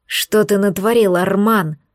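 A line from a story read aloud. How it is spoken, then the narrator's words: Angry male growl. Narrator (Russian): злобно зарычал второй, блондин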